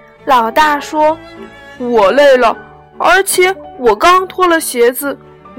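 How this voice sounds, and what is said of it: Usual voice. Nothing is said of it.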